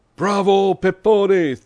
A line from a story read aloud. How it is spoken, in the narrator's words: thundered a voice from the first-floor window of a neighboring house